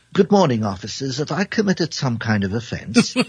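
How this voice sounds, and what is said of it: Put-on British accent. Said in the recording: “my most perfect British impression”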